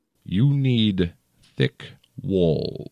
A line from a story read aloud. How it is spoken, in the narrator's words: he said slowly, with a thin smile on his lips